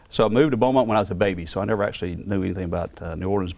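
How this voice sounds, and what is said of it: Louisiana accent. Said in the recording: “Louisiana. I so could tell by back, your accent. ... you could tell the accent.”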